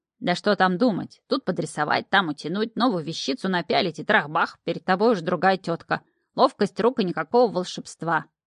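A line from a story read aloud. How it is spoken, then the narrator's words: Grumbling devil, mouth full. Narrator (Russian): проворчал чертяка, запихивая в рот сворованную с тарелки колбаску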